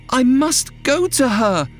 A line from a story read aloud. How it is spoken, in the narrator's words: Rosamond screamed